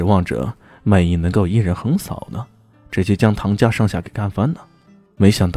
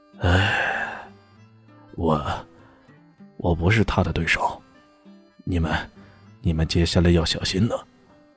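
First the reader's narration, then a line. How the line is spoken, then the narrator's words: Sighing. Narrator (Chinese): 魅影叹了口气，说道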